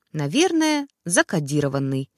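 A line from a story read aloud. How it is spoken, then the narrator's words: Calm explanation. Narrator (Russian): спокойно пояснила она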